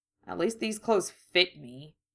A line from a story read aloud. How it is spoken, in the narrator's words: he grumbled